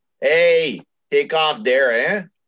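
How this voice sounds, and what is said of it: Bad put-on Canadian accent. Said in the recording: “That's a bad yeah. Canadian accent.”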